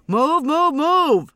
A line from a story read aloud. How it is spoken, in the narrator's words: someone was yelling